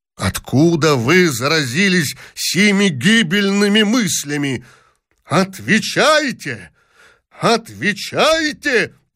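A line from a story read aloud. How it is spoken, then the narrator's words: Terrible shouting father. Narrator (Russian): страшным голосом кричал принц-родитель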